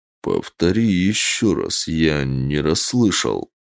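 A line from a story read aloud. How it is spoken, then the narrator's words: Slow, sinister voice. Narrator (Russian): медленно попросил зловещим голосом Костя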